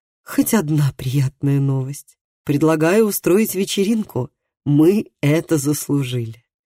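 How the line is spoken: Deep sigh, then speaking. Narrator (Russian): глубоко вздохнула и сказала

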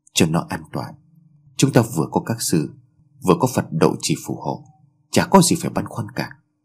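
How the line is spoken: Soft. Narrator (Vietnamese): Tôi khẽ bảo

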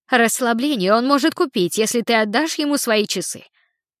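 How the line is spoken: Snapping retort. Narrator (Russian): огрызнулась фея

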